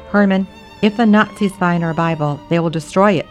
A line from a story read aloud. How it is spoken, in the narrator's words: Mother said